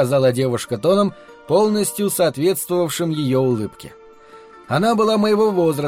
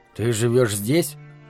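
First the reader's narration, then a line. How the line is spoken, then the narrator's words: Mumbled. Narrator (Russian): пробормотал я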